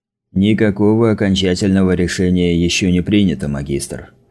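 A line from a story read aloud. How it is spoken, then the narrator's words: Plain. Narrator (Russian): ответил Стаффа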